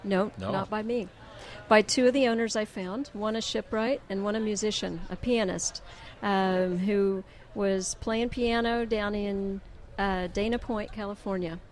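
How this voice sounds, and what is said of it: Oklahoma accent. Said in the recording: “my Okie accent”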